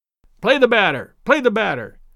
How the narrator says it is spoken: sharply called Daddy from the bench

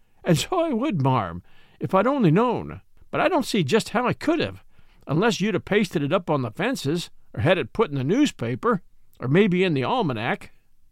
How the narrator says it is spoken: replied the peddler, laughing

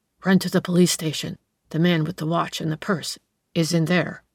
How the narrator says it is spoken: in a whisper, he said to the boy

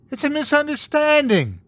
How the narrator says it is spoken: Sarah wailed

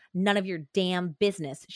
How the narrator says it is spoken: spat

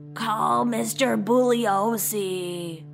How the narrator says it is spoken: Before she passed out, she croaked

